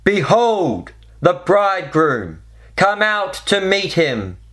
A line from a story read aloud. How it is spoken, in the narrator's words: a voice cried out